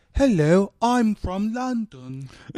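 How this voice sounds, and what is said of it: Put-on British accent. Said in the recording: “that was way better than Keanu's accent”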